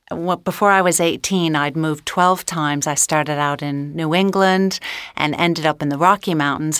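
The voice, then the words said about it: Mid-Atlantic accent. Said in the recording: “I suppose I'd call my accent now Mid-Atlantic.”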